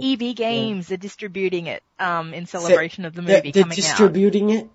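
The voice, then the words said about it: Speaks with a regional accent. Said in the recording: “Don't pick on my accent... I was just making fun of how you pronounce it.”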